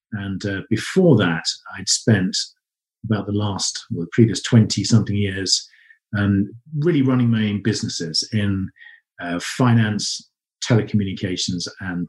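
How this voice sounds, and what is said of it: English accent. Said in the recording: “people already recognize the accent ... I'm originally from England”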